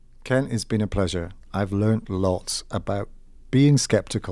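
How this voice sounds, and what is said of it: Usual voice. Nothing is said of it.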